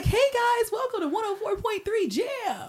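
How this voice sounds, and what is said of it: Upbeat morning radio DJ voice. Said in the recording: “I can do the morning voice.”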